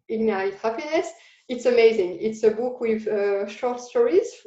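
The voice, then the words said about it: Non-native English accent. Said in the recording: “sorry for my accent because this is very difficult to pronounce, I think, for me”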